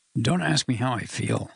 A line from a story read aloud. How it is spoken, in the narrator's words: croaked